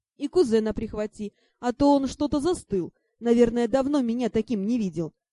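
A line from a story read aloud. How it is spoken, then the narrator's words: Deep booming laugh. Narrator (Russian): Дракон басовито хохотнул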